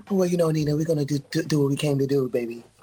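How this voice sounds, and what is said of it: Creepy Donald Trump impression. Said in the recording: “you sound like Trump ... It's Trump, y'all! ... That's like a creepy Trump.”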